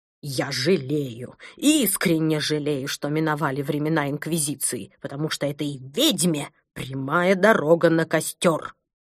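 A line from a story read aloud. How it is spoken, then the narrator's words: Vicious hiss, rising volume. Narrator (Russian): Злобно прошипел доктор Пилюлькин, повышая голос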